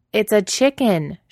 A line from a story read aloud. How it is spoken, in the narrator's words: she's yelling